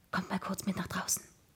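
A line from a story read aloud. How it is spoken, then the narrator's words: Whispered. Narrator (German): flüsterte ich ihnen zu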